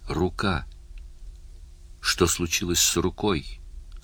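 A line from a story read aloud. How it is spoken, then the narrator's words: Weak voice. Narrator (Russian): слабым голосом спросил Барни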